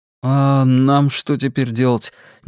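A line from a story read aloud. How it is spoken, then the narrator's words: Uncertain question. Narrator (Russian): неуверенно спросил Роланд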